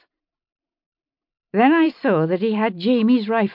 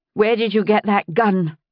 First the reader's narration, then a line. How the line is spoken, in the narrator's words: I said fiercely